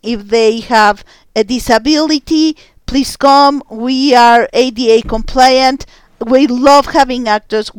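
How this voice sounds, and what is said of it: Hispanic accent. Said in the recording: “As you can tell by the accent, I'm Hispanic”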